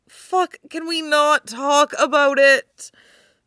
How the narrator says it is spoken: she moans

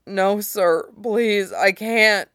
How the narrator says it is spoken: Soap whimpered, body trembling under Ghost's hands

